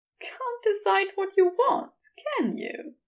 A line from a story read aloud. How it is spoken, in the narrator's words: Aziraphale said, his voice warm with fond amusement